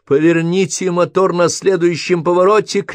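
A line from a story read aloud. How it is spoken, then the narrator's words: Shouting. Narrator (Russian): крикнул он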